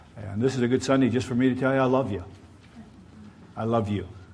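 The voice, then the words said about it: Southern American accent. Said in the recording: “Sounds so southern when I say I love you.”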